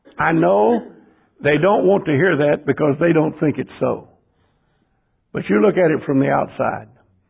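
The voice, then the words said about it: Rural American hick accent. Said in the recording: “You hear my voice. My accents, my wording, my phraseology... But I'm a hick.”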